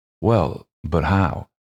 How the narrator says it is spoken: her voice dropping

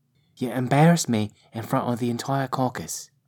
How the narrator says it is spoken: said mother

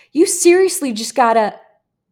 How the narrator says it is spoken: one guy yelled in frustration

